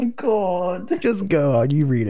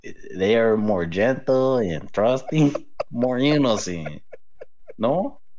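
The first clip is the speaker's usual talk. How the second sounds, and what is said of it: Exaggerated cartoonish Mexican accent. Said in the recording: “read this in your Speedy Gonzalez accent ... I fucking can't with that voice”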